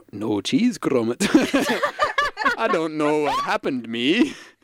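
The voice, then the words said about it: Put-on Yorkshire accent, Wallace-like. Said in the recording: “in a Yorkshire voice which I can't do”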